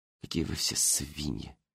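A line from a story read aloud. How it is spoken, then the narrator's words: Muttered. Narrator (Russian): пробормотала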